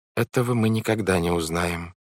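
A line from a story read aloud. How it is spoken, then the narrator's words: Said calmly. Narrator (Russian): спокойно сказала Вайолет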